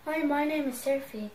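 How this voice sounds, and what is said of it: Child's put-on British accent. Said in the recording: “She's been practicing a new accent. I think it's pretty good. ... this is my British accent”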